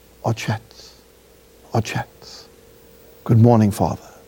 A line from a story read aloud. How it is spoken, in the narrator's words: would whisper